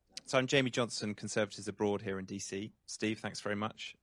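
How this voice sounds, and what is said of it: British accent. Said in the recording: “a question from our British contingent here ... Sorry to not diversify the accents enough.”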